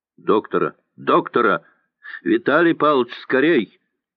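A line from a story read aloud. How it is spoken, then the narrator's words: Shouting from upstairs. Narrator (Russian): кричал наверху Окунев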